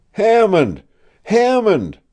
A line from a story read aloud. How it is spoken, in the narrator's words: I cried